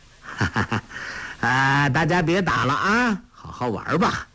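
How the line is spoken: Cheerful, smiling. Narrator (Chinese): 他……笑吟吟的……说道

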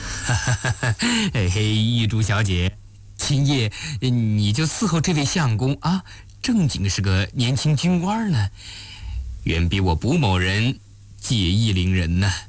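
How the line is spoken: Laughing. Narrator (Chinese): 卜凯笑了笑

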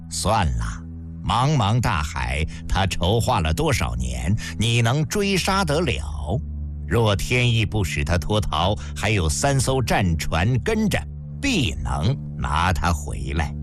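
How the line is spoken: Faint smile, calm. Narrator (Chinese): 嬴政皇帝淡淡一笑说

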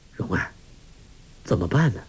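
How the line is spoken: Low voice. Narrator (Chinese): 郭靖低声说

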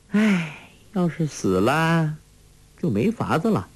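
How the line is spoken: Sighing. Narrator (Chinese): 黄蓉叹道

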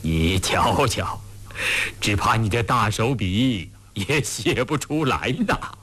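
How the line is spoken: Laughing uncontrollably. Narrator (Chinese): 康熙看着看着也忍不住失笑，到后来竟笑不可遏

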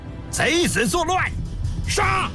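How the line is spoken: Battle shouting. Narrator (Chinese): 喊杀声

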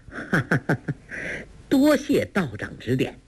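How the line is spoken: Laughing. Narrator (Chinese): 梅超风哈哈一笑，说道

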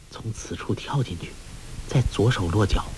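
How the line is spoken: Low voice. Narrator (Chinese): 黄蓉低声说

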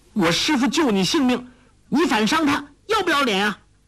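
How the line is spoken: Shouting. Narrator (Chinese): 黄蓉叫道

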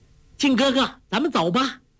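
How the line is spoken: Calling out. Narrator (Chinese): 黄蓉叫道

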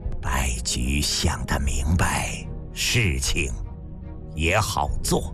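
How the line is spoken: Slightly hoarse. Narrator (Chinese): 营里有些嘶哑

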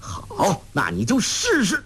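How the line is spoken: Angry. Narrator (Chinese): 黄药师怒道

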